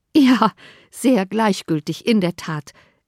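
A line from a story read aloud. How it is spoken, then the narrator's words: Laughing. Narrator (German): erwiderte Elizabeth lachend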